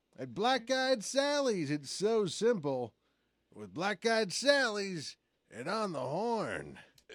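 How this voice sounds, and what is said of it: Wacky FM radio DJ voice. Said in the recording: “the best wacky FM DJ voice”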